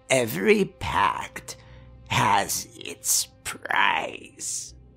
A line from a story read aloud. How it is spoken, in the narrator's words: she said, her voice becoming a croak as the rust claimed her throat